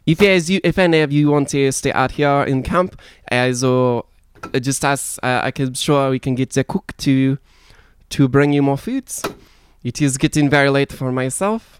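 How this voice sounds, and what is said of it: Put-on character accent, poorly done. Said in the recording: “Ah, that fucking accent. ... Yeah, really can't do that one right.”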